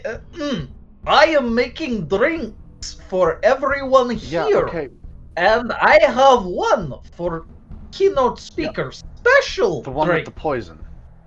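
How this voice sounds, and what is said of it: Put-on accent. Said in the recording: “good accent”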